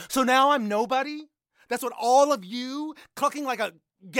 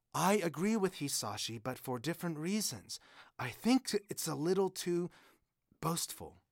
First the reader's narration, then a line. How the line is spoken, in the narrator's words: says Doi gently